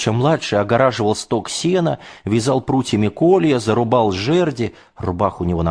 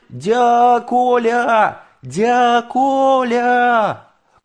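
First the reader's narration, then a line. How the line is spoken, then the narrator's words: Distant shouting. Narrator (Russian): издали кричал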